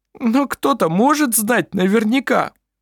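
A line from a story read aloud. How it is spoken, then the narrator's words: Sobbing. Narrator (Russian): всхлипнул Клампин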